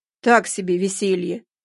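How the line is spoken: Grumbling. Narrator (Russian): пробурчал он

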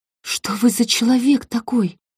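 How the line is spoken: Breathless exhale. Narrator (Russian): выдохнула

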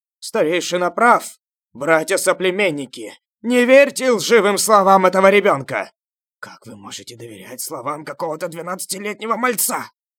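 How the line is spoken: Crowd shouting. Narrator (Russian): Некоторые люди закричали из толпы

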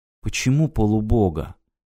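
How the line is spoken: Quiet question. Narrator (Russian): тихо спросила Ирина

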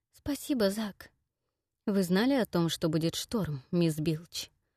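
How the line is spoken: Curt, clipped question. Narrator (Russian): отрывисто спросил мистер Фьюд

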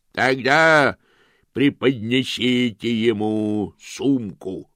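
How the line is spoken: Booming distant voice. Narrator (Russian): прогремел голос в стороне

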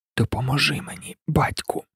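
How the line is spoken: Whisper. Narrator (Ukrainian): прошепотів він

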